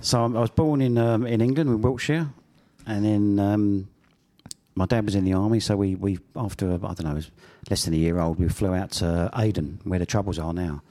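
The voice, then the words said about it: Australian accent. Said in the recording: “you were born in Australia, obviously, by your accent”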